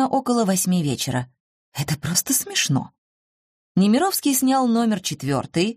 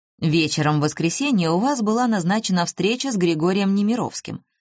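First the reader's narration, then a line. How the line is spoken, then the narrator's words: Plain. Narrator (Russian): сказал Пушкин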